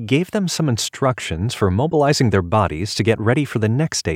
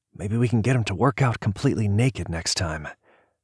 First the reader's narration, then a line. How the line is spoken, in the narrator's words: Terry murmured next to David